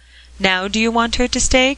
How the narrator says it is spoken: cried the old gentleman

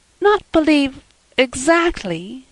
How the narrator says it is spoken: faltered Anne

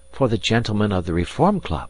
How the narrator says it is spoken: muttered Passepartout

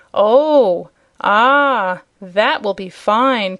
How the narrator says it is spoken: cried all the other 5

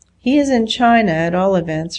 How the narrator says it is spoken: her mother remarked cheerfully

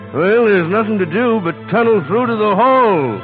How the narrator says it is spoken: yelled the marshal

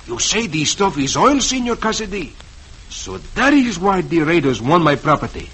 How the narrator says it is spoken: Don Ramon exclaims

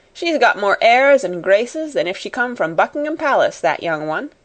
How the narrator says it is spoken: said the cook, chuckling a little sometimes

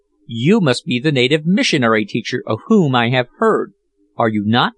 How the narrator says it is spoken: exclaimed

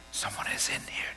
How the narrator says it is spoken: Josh whispered

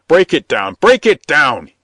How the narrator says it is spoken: shouted

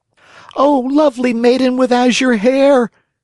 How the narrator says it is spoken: cried Pinocchio

